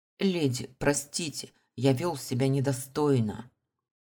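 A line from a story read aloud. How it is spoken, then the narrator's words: Strained, forced. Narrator (Russian): выдавил он из себя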